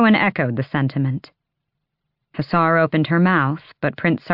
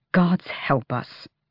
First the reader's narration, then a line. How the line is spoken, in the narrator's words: Kaol muttered